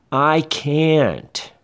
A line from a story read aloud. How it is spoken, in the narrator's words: the little one replies loudly